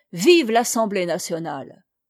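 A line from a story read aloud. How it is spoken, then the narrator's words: Crowd shouting. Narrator (French): on criait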